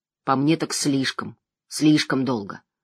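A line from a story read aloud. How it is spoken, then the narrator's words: Mumbling. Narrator (Russian): пробормотал Ивин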